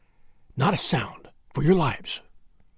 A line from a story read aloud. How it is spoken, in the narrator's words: McMurdo whispered